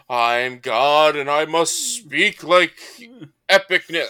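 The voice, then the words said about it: God-like character voice. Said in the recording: “doing the God voice. You've got the God voice nailed.”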